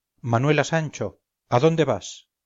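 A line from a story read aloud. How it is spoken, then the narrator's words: Wounded, terrified cry. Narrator (Spanish): Pirli, que yacía en el suelo herido en una pierna, exclamó con terror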